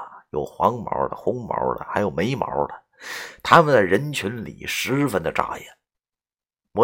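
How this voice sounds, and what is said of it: Usual voice. Nothing is said of it.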